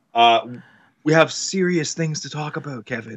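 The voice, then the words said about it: Mock-serious voice. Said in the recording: “I have my serious voice on right now.”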